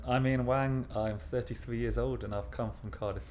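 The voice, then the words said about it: English accent, not Welsh. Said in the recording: “I'm not Welsh, as you probably can hear from the accent.”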